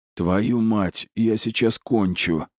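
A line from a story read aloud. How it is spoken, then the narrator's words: Breathless gasp. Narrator (Russian): выдохнул Гарри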